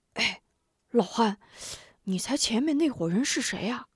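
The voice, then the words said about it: Quiet, startled exclamation. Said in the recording (Chinese): “小声惊叫道”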